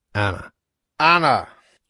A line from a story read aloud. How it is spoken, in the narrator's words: yelled the father through the hall into the kitchen